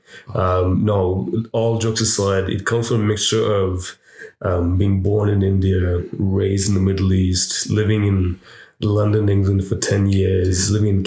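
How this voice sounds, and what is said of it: Smooth voice, mixed international accent. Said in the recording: “smooth, sexy voice ... Where's your voice coming from? ... Tell us where your accent comes from. ... It's like a mixture of the world. ... My gypsy accent”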